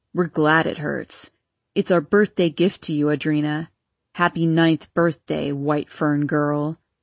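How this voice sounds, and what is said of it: Raspy snarling boy's voice. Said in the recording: “Spencer Longtree's raspy voice snarled.”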